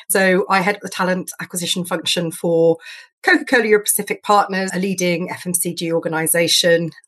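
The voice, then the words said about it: British accent. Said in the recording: “As you can probably tell from my accent, I'm actually based in GB.”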